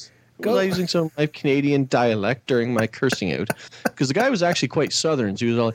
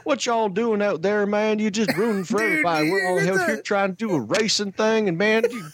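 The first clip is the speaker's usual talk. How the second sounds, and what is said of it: Southern accent with Canadian traces. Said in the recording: “Your Southern accent sounds so Canadian ... it was good, but you'd hear this oot thing still”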